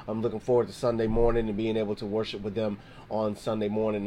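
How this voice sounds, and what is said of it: Hoarse, strained voice. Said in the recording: “If you can already hear, my voice is kind of shot. I've been doing a little bit of choir rehearsal ... my throat is like,”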